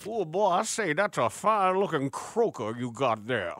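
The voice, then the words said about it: Over-the-top Cajun accent. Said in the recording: “do a Cajun accent. And then it's over the top. It's over the top”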